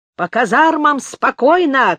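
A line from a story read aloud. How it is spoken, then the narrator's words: Shouted commands. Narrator (Russian): кричали командиры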